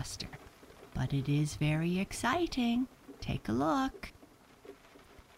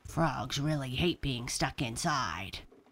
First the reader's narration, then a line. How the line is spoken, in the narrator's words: grumbled Francine